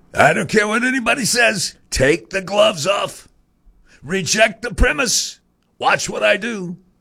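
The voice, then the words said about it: Donald Trump impersonation. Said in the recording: “Terrible Trump impersonation,”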